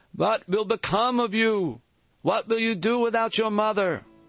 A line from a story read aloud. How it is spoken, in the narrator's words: One of his aunts, a heavy-set woman, began to wail